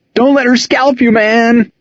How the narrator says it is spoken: Dave, Doobie Dooley, shrieking

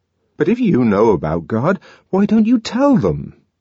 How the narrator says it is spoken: asked the savage indignantly

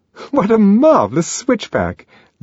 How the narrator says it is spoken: Lenina laughed delightedly

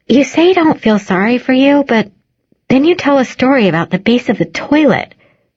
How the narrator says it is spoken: she blurts

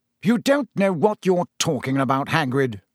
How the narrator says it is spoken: said Fudge sharply

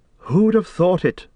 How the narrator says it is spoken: Frodo exclaimed

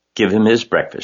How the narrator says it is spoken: she said

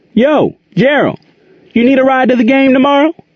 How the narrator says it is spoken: Andy yelled across the gym

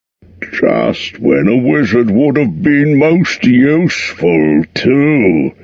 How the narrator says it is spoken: groaned Dory and Nori

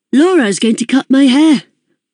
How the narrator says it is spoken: I blurted out

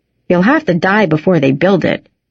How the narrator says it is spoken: said

